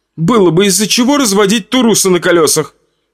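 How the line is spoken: Snapping retort. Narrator (Russian): огрызнулась Бетти

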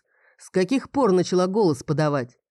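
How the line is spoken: Scoffing snort. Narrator (Russian): Лодин хмыкнул

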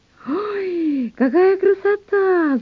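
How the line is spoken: Excited squeal. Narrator (Russian): завизжала Маня

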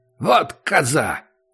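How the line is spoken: Angry. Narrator (Russian): сказал Акопыч сердито

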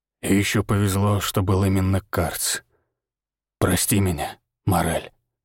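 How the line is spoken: Hoarse whisper. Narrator (Russian): хрипло прошептал Григор

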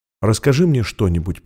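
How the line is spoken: Whispered. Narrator (Russian): прошептала она

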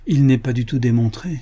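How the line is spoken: Unsteady, unconvinced voice. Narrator (French): disait Bill d'une voix mal assurée, car lui-même à ce moment-là ne croyait pas ce qu'il disait

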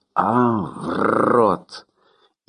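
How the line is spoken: Growling, half-awake. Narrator (Russian): воспрянув от сна, рычал

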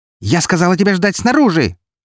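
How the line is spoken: Furious bark. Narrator (Russian): рявкнула эта разъяренная фурия

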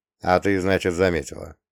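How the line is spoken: Smirking huff. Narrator (Russian): хмыкнул

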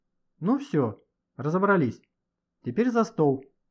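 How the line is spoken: Cheerful. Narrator (Russian): весело проговорила Лидия Павловна

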